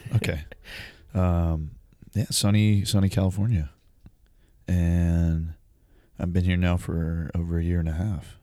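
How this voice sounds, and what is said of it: Smooth radio-announcer morning voice. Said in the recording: “I'm loving your almost. NPR voice right now. ... Good morning voice.”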